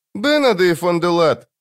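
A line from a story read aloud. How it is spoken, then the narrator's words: Sad. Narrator (Russian): грустно проговорил Жемчуг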